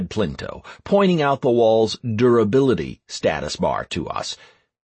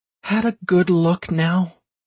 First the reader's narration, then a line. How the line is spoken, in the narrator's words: asked Anastaria, her voice tense